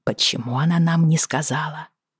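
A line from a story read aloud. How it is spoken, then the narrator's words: Muffled murmur. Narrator (Russian): пробормотала я, прижимаясь губами к макушке ребенка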